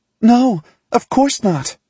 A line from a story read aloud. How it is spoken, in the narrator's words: Tessa exclaims, defending herself